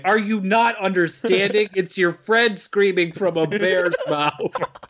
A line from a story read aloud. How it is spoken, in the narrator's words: he does the doctor scream